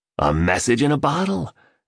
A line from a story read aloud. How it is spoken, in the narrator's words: declared the billionaire happily